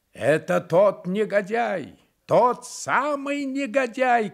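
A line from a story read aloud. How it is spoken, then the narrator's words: Shouting. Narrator (Russian): кричал офицер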